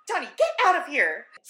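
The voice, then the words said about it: Imitates a TV character's voice. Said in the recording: “In my best Allison voice.”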